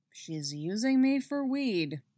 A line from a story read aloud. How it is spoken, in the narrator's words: Eddie grumbles